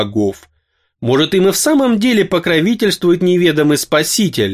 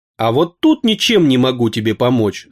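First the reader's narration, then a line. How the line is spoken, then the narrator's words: Angry, sorceress's voice. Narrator (Russian): зло сказала волшебница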